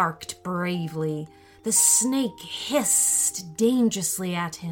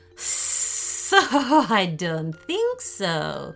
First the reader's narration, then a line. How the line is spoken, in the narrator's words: she laughed